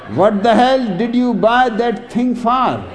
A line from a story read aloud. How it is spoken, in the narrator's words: asks Jack Jerk